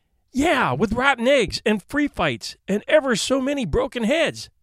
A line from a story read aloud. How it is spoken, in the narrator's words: exclaimed Eric